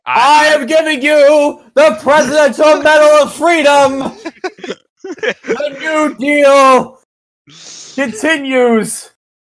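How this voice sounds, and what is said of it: Loud yelling presidential impression. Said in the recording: “you would never be an impersonator for fucking presidents ... I can't do a good impersonation of him, but all I know is that he fucking yells a lot”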